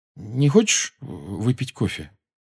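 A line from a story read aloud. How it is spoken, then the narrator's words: Hesitant question. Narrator (Russian): Джоу неуверенно спросила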